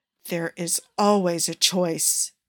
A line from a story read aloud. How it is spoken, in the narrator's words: Barnes hissed